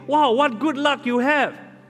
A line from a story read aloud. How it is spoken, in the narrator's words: the neighbors gathered around him and exclaimed